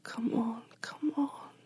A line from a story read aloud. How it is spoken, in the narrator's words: she whispered